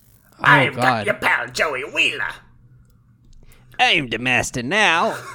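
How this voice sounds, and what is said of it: Put-on Brooklyn accent, villain voice. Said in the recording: “his like evil Merrick voice ... would be forced to use a Brooklyn accent in everything”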